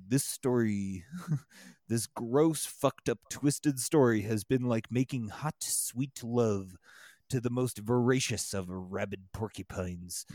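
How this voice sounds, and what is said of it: Imitates a famous science narrator's voice. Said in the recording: “in my Carl Sagan voice.”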